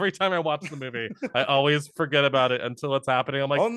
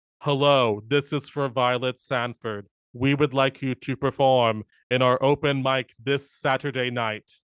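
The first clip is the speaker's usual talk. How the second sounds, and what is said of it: Robotic imitated voice. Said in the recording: “she's like a robot ... you sound like when Will Ferrell does his Robert Goulet impression”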